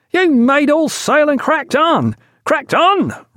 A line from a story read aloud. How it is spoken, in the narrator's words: roared the second, barely articulate